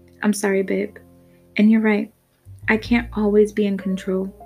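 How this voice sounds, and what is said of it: Somewhat submissive voice. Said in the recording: “in a somewhat submissive voice”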